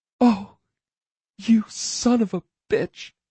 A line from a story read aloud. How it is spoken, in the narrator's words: she breathed, right before she burst into tears